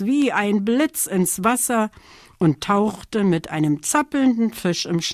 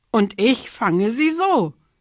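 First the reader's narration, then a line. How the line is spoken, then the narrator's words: Kingfisher calling. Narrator (German): rief der Eisvogel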